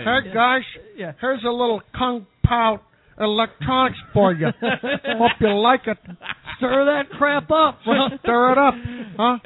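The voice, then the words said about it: Impression of Harlan. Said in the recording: “That's a really good impression. ... It's a good Harlan.”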